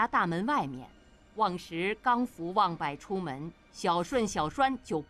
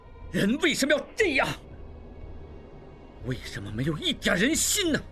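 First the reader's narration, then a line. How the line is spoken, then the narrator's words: Angry shout. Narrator (Chinese): 应济心中大怒不已……叫道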